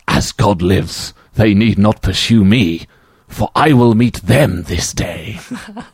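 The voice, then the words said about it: Sinister-sounding imitated voice. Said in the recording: “your Edward impression. It sounds too sinister.”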